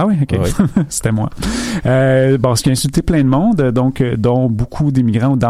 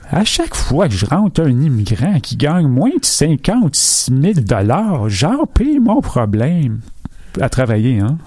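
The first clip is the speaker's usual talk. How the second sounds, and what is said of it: Imitates another person's voice. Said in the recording (French): “je prends-tu l'accent? ... C'est François Legault”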